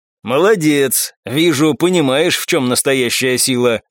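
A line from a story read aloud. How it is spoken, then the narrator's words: Chuckling. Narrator (Russian): хохотнул Петр Макарович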